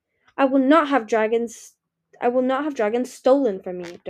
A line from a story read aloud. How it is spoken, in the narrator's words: Darkstalker snarled